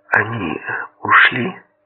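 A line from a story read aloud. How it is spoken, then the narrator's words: Whisper. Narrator (Russian): Мама прошептала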